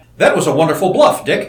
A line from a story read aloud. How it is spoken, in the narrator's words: exclaimed the Kofedix in English